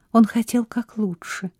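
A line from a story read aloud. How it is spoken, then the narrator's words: Whisper. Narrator (Russian): прошептала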